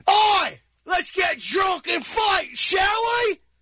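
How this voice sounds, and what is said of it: Loud put-on Cockney accent. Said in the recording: “a Cockney accent from the East End of London. A Cockney accent. ... His Cockney guys are loud.”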